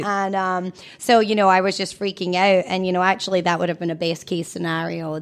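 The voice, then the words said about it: Scottish accent. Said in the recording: “she has a Scottish accent, so she's from Scotland”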